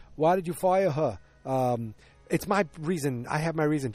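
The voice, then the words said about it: Put-on New York accent. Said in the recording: “I'm trying to do my New York accent.”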